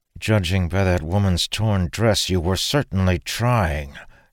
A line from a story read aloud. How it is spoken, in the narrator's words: Dalen growled